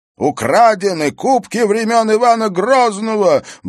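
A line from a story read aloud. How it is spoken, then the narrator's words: Fat man's spluttering scream. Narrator (Russian): брызжа слюной вопил толстяк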